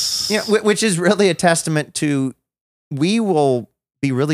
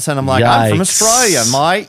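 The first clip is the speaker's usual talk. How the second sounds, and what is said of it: Put-on Australian accent. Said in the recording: “trying to figure out how to speak in an Australian accent ... With this accent.”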